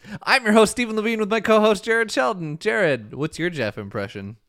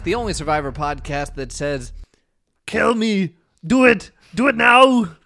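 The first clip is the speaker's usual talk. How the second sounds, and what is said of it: Imitates another person's voice. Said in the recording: “that was my Jeff impression”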